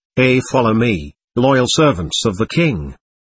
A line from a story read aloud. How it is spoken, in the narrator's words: This knight said, in a strong voice